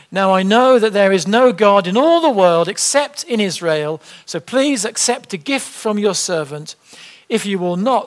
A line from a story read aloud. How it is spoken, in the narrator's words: said Naaman